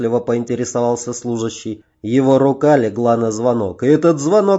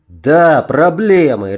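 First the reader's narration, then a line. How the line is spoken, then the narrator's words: Angry bark. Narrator (Russian): рявкнул я, разозленный больше на себя, чем на кого-либо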